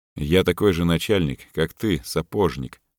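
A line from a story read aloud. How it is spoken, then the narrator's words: Calm. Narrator (Russian): спокойно проговорил Жилин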